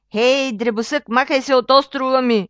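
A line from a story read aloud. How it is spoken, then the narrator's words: Roaring. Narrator (Bulgarian): изревал той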